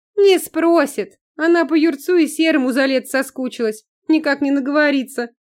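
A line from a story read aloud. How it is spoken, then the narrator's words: Laughing. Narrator (Russian): Засмеялась Нюта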